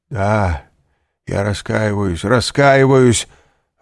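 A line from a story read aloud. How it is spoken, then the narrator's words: Exclaiming. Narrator (Russian): воскликнул Данглар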